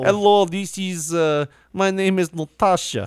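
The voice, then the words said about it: Put-on Russian accent. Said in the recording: “She looks definitely like a Russian stripper. ... She's just learned the accent.”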